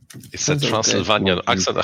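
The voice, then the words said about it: Strong thick Eastern European accent. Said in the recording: “I do have this strong, thick Eastern European accent. Some people ... called this a Transylvanian accent ... I sound like Count Dracula.”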